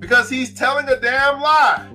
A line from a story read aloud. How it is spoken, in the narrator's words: another shouted